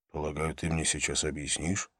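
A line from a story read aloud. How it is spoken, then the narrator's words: Whispered. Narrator (Russian): шепнул я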